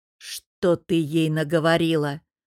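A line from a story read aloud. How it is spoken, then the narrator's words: Growled. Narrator (Russian): прорычал я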